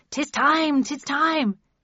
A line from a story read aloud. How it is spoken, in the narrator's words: Passerby from Shadow the Sheepdog had cried